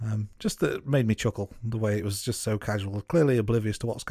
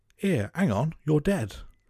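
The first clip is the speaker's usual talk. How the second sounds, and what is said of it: Put-on English officer accent. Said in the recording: “That's not a bad accent, I think you'll find as well ... that accent, was spot on, mate”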